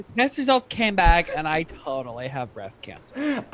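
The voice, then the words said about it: Valley Girl voice. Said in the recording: “in a Valley Girl voice.”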